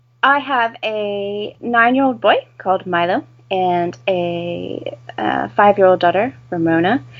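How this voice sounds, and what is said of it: Non-British, American-sounding accent. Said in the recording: “my ridiculous accent, I am not British”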